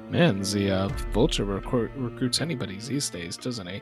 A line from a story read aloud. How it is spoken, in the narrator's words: Gunner mutters under his breath